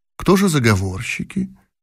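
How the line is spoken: Calm question from emperor. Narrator (Russian): столь же спокойно спросил император

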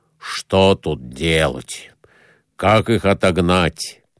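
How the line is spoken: Rapid overlapping muttering. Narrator (Russian): наперерыв бормотали без умолку

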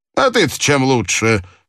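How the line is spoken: Mocking. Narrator (Russian): сказал насмешливо Пинкертон

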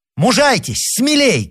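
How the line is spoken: Shout. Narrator (Russian): крикнул Рауль

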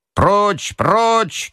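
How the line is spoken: Several voices shouting. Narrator (Russian): кричали на юте

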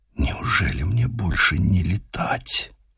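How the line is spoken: Tearful barely audible whisper. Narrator (Russian): Заплакал и сам Мичман, прошептав еле слышно

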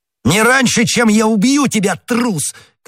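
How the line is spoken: Shouted. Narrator (Russian): крикнул Д'Артаньян

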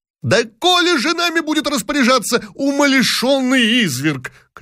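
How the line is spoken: Shouting. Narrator (Russian): кричал третий

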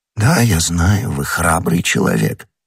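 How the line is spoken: Almost tender voice. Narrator (Russian): сказал кардинал почти ласковым голосом

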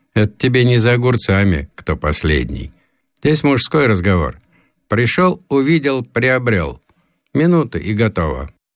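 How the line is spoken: Laughing young man explaining. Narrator (Russian): сравнительно молодой товарищ засмеялся и объяснил

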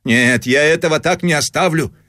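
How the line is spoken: Loud shouting over noise. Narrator (Russian): кричал он, заглушая шум машинки

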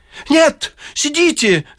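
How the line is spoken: Shouting. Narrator (Russian): закричал Изнуренков

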